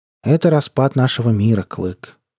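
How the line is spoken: Unexpectedly sad. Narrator (Russian): неожиданно грустно ответил он и добавил

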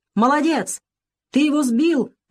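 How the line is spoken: Shouted. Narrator (Russian): прокричал Бакрадзе

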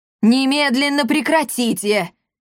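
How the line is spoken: Furious muffled shouting. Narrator (Russian): яростно кричал из-под стола папаша Сандавал

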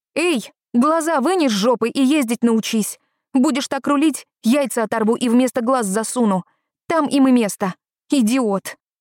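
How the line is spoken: Yelling through window. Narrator (Russian): заорала, открыв окно

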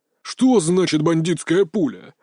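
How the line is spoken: Roaring. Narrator (Russian): аж взревел

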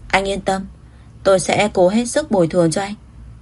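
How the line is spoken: Sighing, sincere. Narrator (Vietnamese): Nguyễn Chỉ Âm thở dài thành khẩn nói

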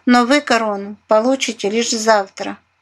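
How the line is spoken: Speaking after laughing. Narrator (Russian): просмеявшись, заговорила матушка Наталья

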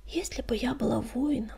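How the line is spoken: Whispered. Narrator (Russian): прошептала она

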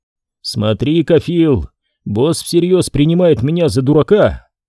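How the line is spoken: Short laugh. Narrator (Russian): Ди Джорджи коротко хохотнул

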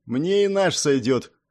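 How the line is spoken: Scoffing. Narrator (Russian): хмыкнула капитан

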